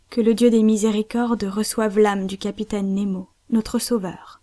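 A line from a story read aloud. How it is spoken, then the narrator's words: Deeply moved voice. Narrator (French): dit Cyrus Smith d'une voix profondément émue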